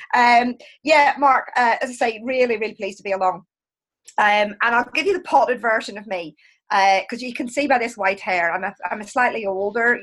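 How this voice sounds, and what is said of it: Belfast accent. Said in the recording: “this is a Belfast accent”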